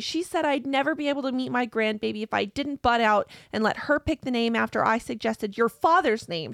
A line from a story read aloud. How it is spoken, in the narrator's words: she cried